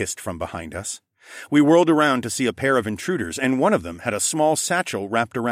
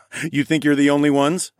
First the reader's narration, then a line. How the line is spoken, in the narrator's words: I chuckled